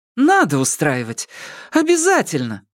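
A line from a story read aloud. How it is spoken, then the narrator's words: Exclamation. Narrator (Russian): воскликнула Лю Сымяо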